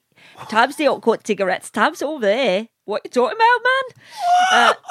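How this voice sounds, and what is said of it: Put-on Newcastle accent. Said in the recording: “I've got a perfect Newcastle accent... I talk in a Newcastle accent”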